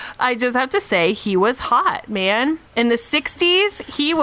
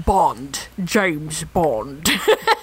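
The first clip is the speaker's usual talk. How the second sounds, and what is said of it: Imitation of Sean Connery's accent. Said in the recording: “I can't do the accent very well. ... That didn't sound that bad.”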